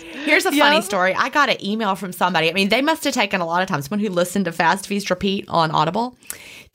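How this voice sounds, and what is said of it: Southern American drawl. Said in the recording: “I really love your Southern drawl ... my southern accent”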